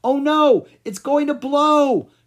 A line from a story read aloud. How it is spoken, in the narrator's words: shouted Zark